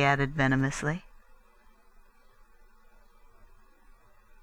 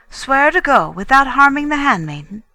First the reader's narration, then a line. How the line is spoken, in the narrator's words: He asked eagerly